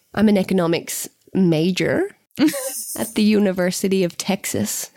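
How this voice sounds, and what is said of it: Unconvincing put-on American accent. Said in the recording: “needs American accent lessons.”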